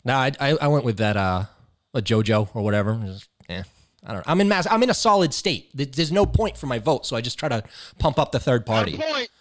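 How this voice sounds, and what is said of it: Massachusetts accent. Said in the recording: “My accent gives it away. ... you're up there in Mass, man.”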